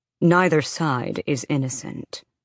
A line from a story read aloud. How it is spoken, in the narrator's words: Rhys countered calmly